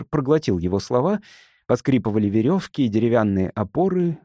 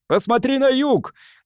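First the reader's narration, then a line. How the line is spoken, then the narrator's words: Shout. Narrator (Russian): крикнул Керон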